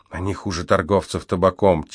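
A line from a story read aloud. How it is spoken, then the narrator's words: Quietly explaining. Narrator (Russian): тихо пояснила Аликея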